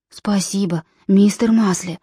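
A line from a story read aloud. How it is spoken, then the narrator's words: Whisper. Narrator (Russian): прошептал он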